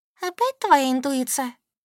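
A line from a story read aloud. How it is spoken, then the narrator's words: Snide question. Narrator (Russian): ехидно спросила Солька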